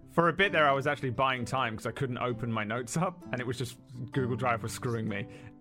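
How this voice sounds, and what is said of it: Monotone drawling accented voice. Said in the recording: “My accent doesn't help. And my tone of voice, my monotone drawl”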